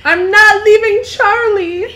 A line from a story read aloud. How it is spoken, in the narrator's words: I yelled